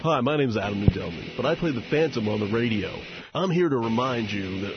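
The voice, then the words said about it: Fake radio character voice. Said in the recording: “That stupid fake voice, I hate it.”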